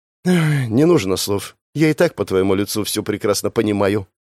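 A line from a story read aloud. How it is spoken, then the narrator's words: Sighing. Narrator (Russian): вздохнула Криста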